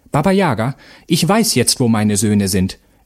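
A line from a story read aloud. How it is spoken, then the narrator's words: Called out. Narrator (German): rief Vasilissa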